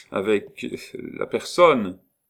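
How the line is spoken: Stammered. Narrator (French): balbutia Saladin

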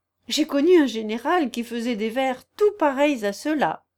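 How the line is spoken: Laughing. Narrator (French): observai-je en riant

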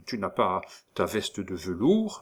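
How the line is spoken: Suspicious murmur. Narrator (French): murmura le coq d'un ton soupçonneux

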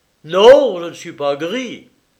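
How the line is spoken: Young man exclaiming fiercely. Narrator (French): s'écria le jeune homme dont le visage prit une expression terrible

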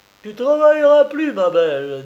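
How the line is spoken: Cheerful. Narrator (French): dis-je gaiement

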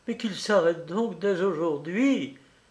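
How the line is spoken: Exclaimed. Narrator (French): s'écria Marguerite

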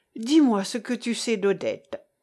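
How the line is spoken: Sighing. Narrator (French): fit Jean avec un soupir

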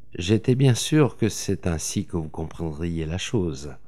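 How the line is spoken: Murmured. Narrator (French): murmura-t-il

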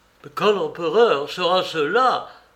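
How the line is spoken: Exclaimed. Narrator (French): s'écria-t-il

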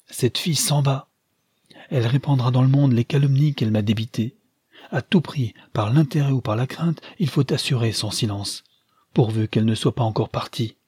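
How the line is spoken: Startled exclamation. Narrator (French): s'écria-t-il avec un soubresaut

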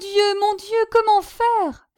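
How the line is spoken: Crying out, sobbing. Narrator (French): s'écria Innocent, éclatant en sanglots

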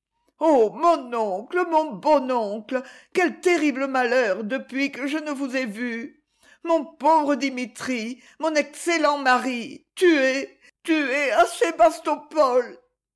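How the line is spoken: Sobbing woman. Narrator (French): Madame d'Abrouville en sanglotant

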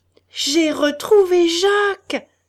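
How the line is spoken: Triumphant outburst. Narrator (French): s'écria-t-il avec une explosion de triomphe

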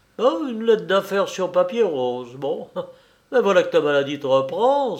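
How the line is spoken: Exclaimed. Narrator (French): s'écria-t-il

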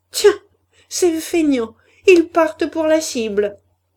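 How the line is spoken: Women sneering together. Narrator (French): ricanaient les femmes, la Brûlé, la Levaque et les autres

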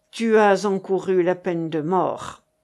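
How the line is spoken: Cold king. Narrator (French): dit froidement Louis XI

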